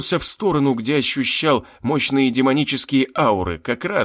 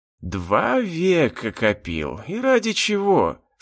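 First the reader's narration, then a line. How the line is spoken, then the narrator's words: Human sigh. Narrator (Russian): совсем по-человечески вздохнул он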